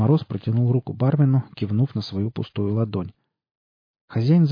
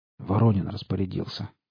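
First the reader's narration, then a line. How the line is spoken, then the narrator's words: Hoarse reply. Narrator (Russian): хрипло отозвался бармен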